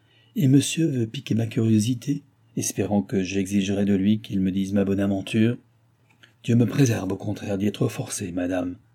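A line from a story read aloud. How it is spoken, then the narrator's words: Cold. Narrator (French): dit froidement Balsamo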